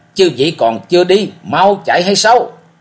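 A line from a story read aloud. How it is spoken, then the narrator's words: Loud roar. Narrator (Vietnamese): chàng gầm lớn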